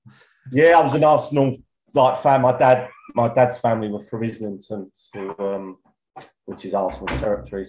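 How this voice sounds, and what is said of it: East London Walthamstow accent. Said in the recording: “You can kind of tell by your accent that you're... Is it Walthamstow that you're born?”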